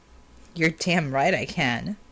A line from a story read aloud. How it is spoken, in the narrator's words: replied with an undertone of sneer